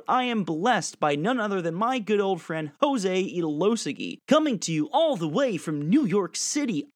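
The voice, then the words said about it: Put-on radio announcer voice. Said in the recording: “doing my radio voice.”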